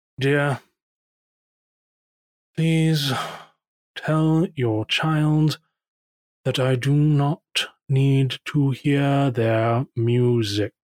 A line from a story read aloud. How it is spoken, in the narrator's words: your grandfather sigh, just say